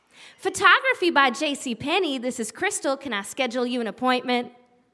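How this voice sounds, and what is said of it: Put-on Southern Tennessee accent. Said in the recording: “this Tennessee portrait studio with this laid-back Southern crowd ... I did not gain an accent in my tenure in Johnson City, Tennessee, although I did answer the phone with an accent.”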